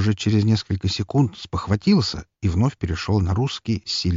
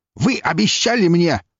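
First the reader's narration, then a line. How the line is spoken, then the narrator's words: Barking. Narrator (Russian): рявкнул Батори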